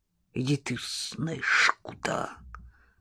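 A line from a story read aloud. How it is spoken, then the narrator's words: Old woman hissing. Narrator (Russian): прошипела старушка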